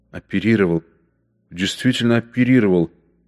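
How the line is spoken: Whisper. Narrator (Russian): шептал Бергер

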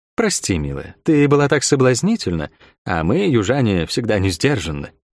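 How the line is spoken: Quiet. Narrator (Russian): негромко сказала

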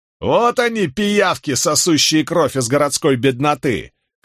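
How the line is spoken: Shouted. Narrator (Russian): крикнул кто-то

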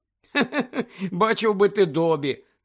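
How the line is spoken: Laughing. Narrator (Ukrainian): засміявся Гаррі

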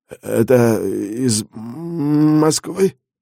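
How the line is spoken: Stammering question. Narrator (Russian): запинаясь, переспросил он

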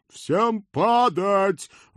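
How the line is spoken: Loud roar. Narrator (Russian): в голос проревел черный конь

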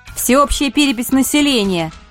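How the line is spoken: Loud announcement. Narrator (Russian): оповестила я громким голосом

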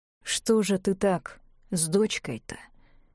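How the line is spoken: Muttering. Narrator (Russian): пробормотал констебль

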